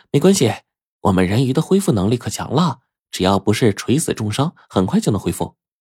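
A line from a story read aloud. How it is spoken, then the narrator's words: Light, smiling. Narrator (Chinese): 小人鱼笑笑说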